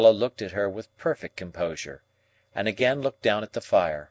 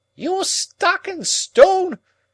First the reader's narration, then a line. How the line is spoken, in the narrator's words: exclaimed Miss Havisham